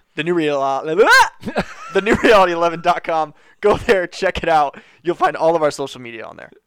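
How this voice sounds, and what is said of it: Radio announcer voice. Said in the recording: “Bringing my radio voice back. ... I forgot my radio voice. You forgot. That was terrible.”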